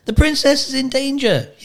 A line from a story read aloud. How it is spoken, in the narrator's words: yelled Despero